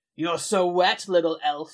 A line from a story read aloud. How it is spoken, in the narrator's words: he growled